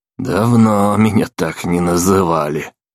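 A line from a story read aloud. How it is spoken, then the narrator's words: Snort. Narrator (Russian): хмыкнул Мерти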